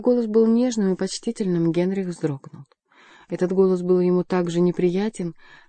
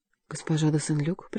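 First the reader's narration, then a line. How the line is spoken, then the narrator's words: Whisper. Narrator (Russian): прошептал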